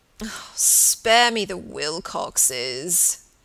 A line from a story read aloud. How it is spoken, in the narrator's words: he moaned